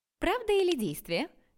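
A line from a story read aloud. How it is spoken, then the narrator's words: Cheerful question. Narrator (Russian): весело спросила именинница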